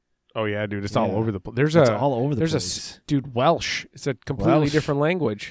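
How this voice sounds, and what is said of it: Usual voice. Nothing is said of it.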